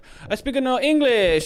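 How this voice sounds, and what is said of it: Weird put-on foreign accent. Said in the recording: “That was a weird accent.”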